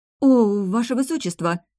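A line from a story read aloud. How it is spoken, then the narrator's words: Slightly frightened. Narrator (Russian): немного испуганно проговорила она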